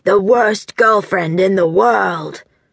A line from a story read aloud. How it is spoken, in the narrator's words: she'd say in a deep, gravelly voice